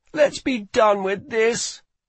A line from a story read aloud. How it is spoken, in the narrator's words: whined Rye